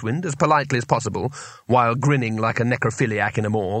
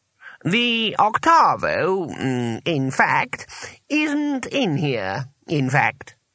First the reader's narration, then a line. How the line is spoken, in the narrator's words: said the voice, slowly